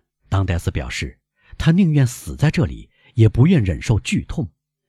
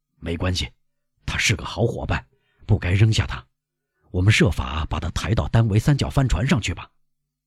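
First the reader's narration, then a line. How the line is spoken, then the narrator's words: Low voice. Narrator (Chinese): 船老大低声说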